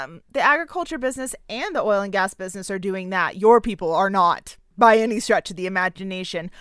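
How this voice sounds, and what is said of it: Usual voice. Nothing is said of it.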